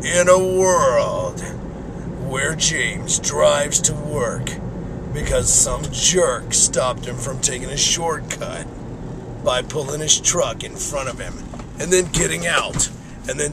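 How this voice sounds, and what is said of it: Deep movie-trailer narrator voice, congested. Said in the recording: “I've had a cold for the last week, and my voice sounds different, so I can actually talk a little bit like a movie guy ... I'm going to try some movie stuff”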